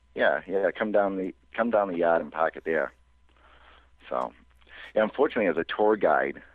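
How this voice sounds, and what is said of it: Boston accent, dropped R's. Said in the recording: “I have to lose my Boston accent ... I actually have to, you know, pronounce my R's”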